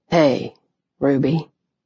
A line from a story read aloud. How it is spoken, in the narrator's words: he said quietly